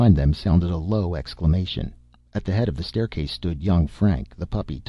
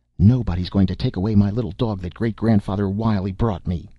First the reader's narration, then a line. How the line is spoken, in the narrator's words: cried the lad stoutly